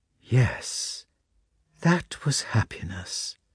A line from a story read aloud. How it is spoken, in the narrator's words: she then said in her quiet voice with its deep chest tones